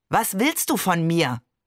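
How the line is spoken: Growling. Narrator (German): Voltaire knurrte

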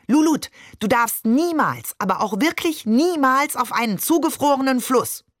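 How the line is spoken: Shouted. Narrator (German): Maman hielt inne, blickte mir geradewegs in die Augen und schrie

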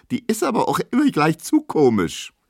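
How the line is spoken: Squealing. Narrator (German): quiekt Emma

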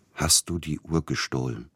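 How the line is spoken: Quiet question. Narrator (German): fragte er leise

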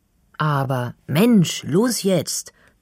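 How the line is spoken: Impatient call. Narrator (German): ruft Finley ungeduldig

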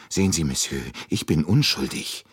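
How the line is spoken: Still fearful. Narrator (German): sagte Michel noch immer ängstlich

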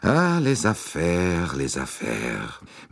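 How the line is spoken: Sighing. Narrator (German): Monsieur Bouc seufzte

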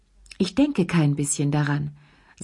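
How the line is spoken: Calm voice. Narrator (German): sagte er mit ruhiger Stimme

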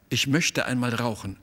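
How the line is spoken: Plain. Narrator (German): sagte sie

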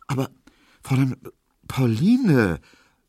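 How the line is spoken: Stammering. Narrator (German): stotterte Emil Kubinke

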